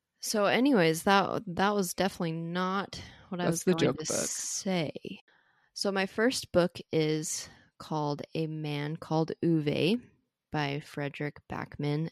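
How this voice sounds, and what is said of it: American accent. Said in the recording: “I'm saying that author's name in a total American accent”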